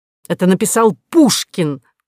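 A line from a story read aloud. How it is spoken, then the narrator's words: Excited exclamation. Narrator (Russian): воскликнул ротмистр, на секунду даже забыв о собственном горе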